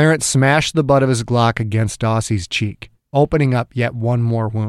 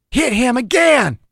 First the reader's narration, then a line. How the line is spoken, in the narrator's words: Dew screamed